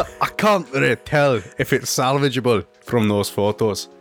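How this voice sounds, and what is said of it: Usual voice. Nothing is said of it.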